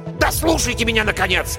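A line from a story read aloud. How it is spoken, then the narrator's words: Sharp shout. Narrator (Russian): прикрикнул он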